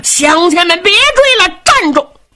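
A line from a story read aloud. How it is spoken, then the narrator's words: Loud shouting. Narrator (Chinese): 张德禄高声喊嚷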